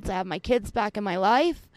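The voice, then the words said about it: Emotional, voice close to tears. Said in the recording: “I'm getting a little bit emotional.”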